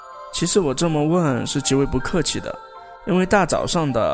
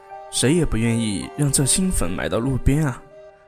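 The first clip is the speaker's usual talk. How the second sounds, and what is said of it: Quiet, hushed speaking voice. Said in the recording (Chinese): “小声说”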